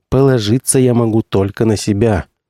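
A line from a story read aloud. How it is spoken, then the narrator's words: Bitter sigh. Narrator (Russian): горько вздохнул ректор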